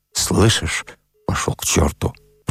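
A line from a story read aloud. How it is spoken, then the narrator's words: Muttered. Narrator (Russian): пробормотал Вавила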